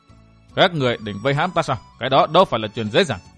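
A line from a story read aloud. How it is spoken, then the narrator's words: Cold question. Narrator (Vietnamese): chàng lạnh lùng hỏi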